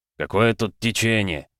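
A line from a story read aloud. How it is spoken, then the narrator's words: Muttered. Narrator (Russian): буркнул Грум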